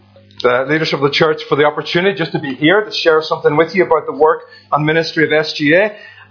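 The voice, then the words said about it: Northern Irish accent with slight Scouse. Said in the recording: “I am from Northern Ireland, so any concern there, you can tell my accent ... this strange concoction of Northern Irish and a little bit of Scouse sometimes”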